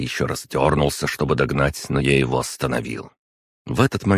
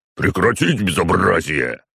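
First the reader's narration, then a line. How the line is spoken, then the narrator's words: Guard chief barking. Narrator (Russian): рявкнул начальник охраны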